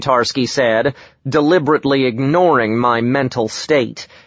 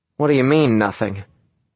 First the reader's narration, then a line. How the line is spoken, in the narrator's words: I asked coldly